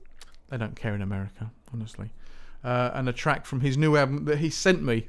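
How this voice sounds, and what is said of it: Usual voice. Nothing is said of it.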